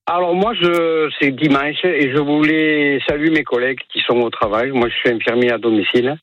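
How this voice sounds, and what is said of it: Southern French accent. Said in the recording (French): “c'est un accent du Sud que vous avez”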